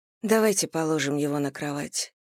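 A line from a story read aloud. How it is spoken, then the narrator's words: Plain. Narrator (Russian): сказала Анна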